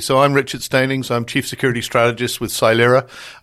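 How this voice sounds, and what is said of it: British accent. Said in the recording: “I'm a Brit. You can tell from the accent”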